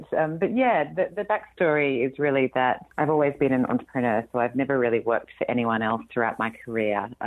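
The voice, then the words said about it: Australian accent. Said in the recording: “you can probably tell from my accent that I'm not from here. I'm Australian originally”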